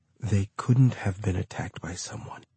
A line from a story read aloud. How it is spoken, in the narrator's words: Oversay whispered